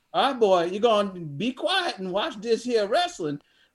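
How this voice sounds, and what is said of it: Thick Southern accent. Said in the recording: “thick Southern accent”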